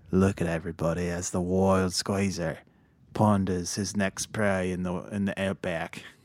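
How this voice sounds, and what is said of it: Australian wildlife presenter impression. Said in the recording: “my Crocodile Hunter, my best Crocodile Hunter impression as I'm narrating you in the wild”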